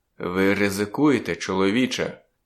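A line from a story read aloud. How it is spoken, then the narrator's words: Quiet. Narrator (Ukrainian): тихо проказав він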